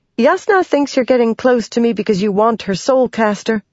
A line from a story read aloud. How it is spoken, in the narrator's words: Shallan blurted out